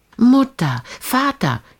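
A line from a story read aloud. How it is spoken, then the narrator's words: Calling from afar. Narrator (German): rief schon von weit her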